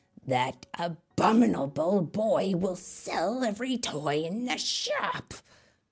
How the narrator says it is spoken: grumbled Abracadabra

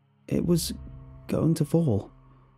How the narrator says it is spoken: I finally answered, my voice weak

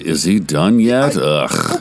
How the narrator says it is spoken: each of them exhaling deeply and intermittently, one of them groaning aloud

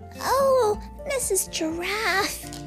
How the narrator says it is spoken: he cried

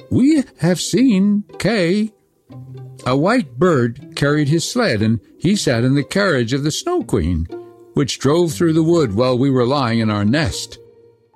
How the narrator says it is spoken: the wood pigeons piped up and said

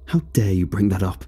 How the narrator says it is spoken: Eric sighed

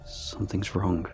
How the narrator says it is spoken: he mutters

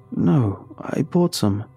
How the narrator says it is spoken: I informed

